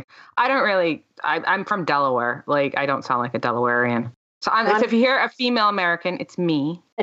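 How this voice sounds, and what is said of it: Mixed American accent. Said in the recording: “a more of a Yank accent ... it's a bastardized Yank accent”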